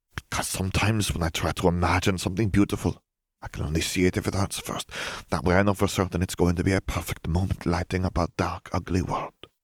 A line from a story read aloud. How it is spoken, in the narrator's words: Fleur whispered